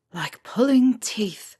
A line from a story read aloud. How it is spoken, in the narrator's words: Remus whispered under his breath